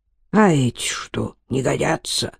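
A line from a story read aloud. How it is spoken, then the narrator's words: Sleepy mumble. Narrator (Russian): пробормотал, не раскрывая глаз, Смерзевод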